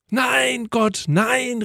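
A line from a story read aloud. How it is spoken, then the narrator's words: Loud hopeful cry. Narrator (German): rief laut, nun etwas hoffnungsvoller geworden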